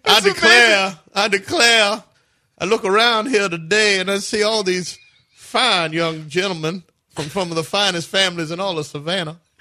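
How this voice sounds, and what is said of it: Bad Southern Kevin Spacey impression. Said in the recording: “the Southern ... that's a bad impression of Kevin Spacey in Midnight in the Garden of Good and Evil ... Terrible impression.”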